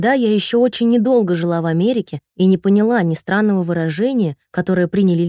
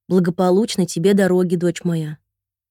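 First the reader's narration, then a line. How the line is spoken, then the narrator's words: Very tender. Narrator (Russian): ответила я, и произнесла очень ласково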